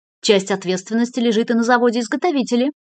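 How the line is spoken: Governor adding quickly. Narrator (Russian): быстро добавил губернатор

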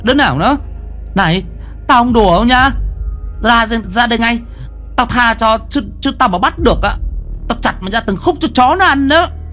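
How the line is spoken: Startled stammering shout. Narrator (Vietnamese): Mi đang tập trung lắng nghe cho nên giật mình, lắp bắp hét lên

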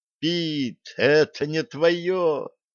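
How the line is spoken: Screamed. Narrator (Russian): завопила Алиса

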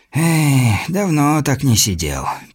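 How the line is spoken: Muttering. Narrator (Russian): пробормотал Сильвер

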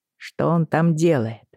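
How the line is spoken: Asked quietly. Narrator (Russian): тихо спросил Йен

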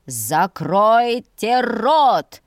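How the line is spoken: Roar. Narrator (Russian): взревел генерал

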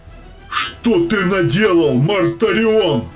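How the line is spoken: Shouted. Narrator (Russian): выкрикнул хан

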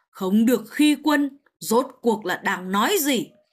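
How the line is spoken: Low, slightly angry emperor. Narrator (Vietnamese): Hoàng đế Đại Lương hơi giận dữ, trầm giọng nói

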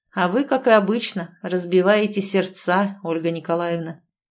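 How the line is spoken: Gloomy smirk. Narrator (Russian): мрачно усмехнулся Александр

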